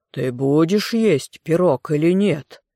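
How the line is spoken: Harsh growl, charm gone. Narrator (Russian): Змей прорычал, и голос его разом потерял всю красоту и вкрадчивость

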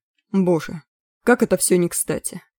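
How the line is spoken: Sigh. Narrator (Russian): вздохнул Маккехт

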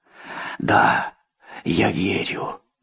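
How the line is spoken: Hoarse voice. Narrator (Russian): Его голос был хриплым

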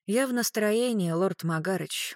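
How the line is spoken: Gloomy. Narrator (Russian): мрачно сказала Клариса

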